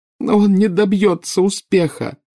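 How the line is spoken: Sobbing. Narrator (Russian): рыдала Нарцисса

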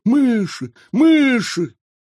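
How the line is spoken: Sudden distant shout. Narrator (Russian): Вдруг он закричал оттуда

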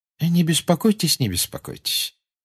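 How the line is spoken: Pleasant tone. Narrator (Russian): приятным тоном сказал Дамблдор

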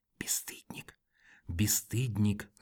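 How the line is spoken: Reproachful whisper. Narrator (Russian): зашептала она укоризненно

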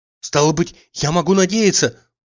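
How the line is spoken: Sudden joyful outburst. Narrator (Russian): вдруг радостно вспыхнув, сказал он

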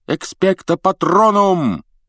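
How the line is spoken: Yelling. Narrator (Russian): завопил Гарри

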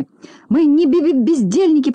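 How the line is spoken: Tearful babbling. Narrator (Russian): пролепетала, чуть не плача Селедочка

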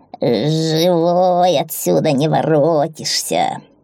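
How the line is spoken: Creaking door voice. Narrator (Russian): проскрипела дверь

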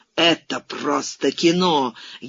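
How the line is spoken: Furious exclamation. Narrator (Russian): яростно воскликнул

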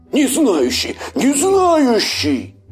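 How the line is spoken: Wolf yelling. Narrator (Russian): заорал волк

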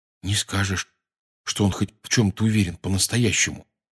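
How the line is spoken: Quiet. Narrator (Russian): тихонько сказал Рон

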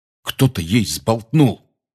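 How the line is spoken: Angry. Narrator (Russian): сердито сказал Рон

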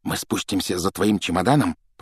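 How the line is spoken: Whisper. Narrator (Russian): прошептал Джордж

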